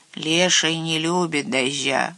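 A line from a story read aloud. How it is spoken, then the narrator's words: Grumbling. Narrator (Russian): ворчал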